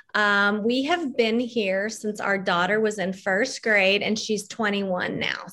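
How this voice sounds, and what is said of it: Slight mixed Texas-Mississippi southern accent. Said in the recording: “I'm still carrying on a little bit of a mixed accent from both of those places”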